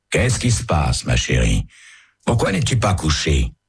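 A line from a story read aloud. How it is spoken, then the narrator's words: Worried, slightly reproachful question. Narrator (French): demande-t-il d'un ton soucieux et légèrement réprobateur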